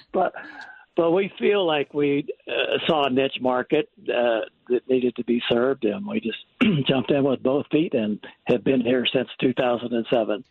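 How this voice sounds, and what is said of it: Slight Missouri accent. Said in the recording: “I'm picking up a bit of an accent... Missouri.”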